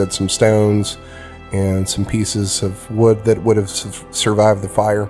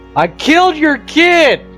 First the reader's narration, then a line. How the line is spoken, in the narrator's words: I yell at the top of my lungs